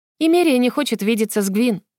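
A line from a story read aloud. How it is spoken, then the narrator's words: Calm. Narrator (Russian): спокойно сказала Дивана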